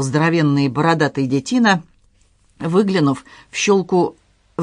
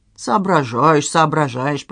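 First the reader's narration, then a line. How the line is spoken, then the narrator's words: Hissed. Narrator (Russian): прошипел тощий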